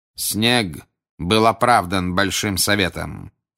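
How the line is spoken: Cold. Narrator (Russian): холодно произнес Крауч

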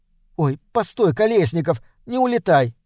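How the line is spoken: Pleading. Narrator (Russian): взмолилась Леночка

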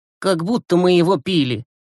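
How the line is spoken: Grumbling. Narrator (Russian): проворчал Глеб

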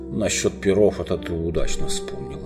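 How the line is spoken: Sour mutter. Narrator (Russian): с кислой улыбкой пробормотал Эдмунд

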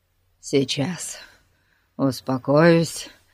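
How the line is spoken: Exhaled words. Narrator (Russian): выдохнул он

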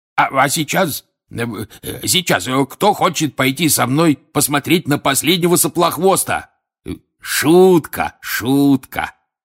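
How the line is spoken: Quick exclamation. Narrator (Russian): тут же воскликнул он

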